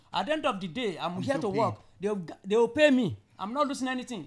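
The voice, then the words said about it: Speaks with a foreign accent. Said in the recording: “because of my accent”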